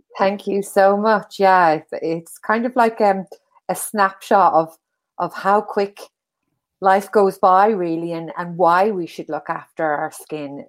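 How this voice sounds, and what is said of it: Irish accent. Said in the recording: “I'm Irish, you can hear from my accent.”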